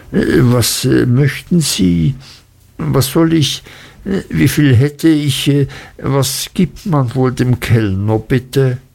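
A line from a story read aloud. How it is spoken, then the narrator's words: Embarrassed stammering. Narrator (German): stammelte ich und wurde rot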